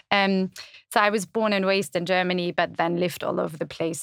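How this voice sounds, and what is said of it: German accent in English. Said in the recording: “you can probably hear from my accent that I was born in Germany, even though sometimes I get South African”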